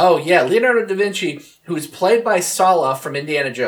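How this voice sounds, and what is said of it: Usual voice. Nothing is said of it.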